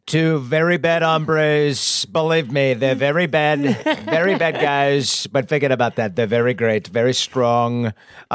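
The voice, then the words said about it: Donald Trump impression. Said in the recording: “That impersonation of Donald J. Trump. Very top notch.”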